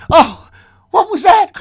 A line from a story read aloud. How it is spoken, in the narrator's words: cried the old woman, starting up